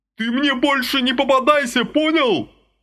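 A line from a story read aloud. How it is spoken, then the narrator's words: Roaring after someone. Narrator (Russian): взревел вдогонку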